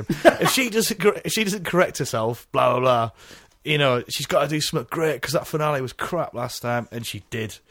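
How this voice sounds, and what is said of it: Impression of co-host, northern accent. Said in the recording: “I'm doing an impression of you again, Jim. ... your most harsh and northern critic.”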